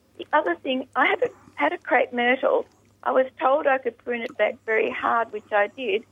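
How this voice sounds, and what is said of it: Croaky voice. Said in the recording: “my voice is a bit croaky this morning”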